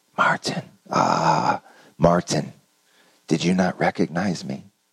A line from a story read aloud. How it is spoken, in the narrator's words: a voice whispered in his ear